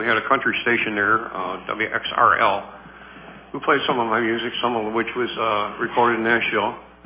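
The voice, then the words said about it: Low voice from a cold. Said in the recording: “I'm just trying to get over a cold that I got... my voice is not as low or as high as it should be. It's really down in the basement.”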